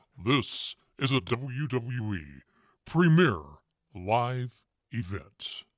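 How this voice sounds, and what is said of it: Smooth announcer radio voice. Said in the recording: “give us the radio voice on that one ... That almost put me to sleep”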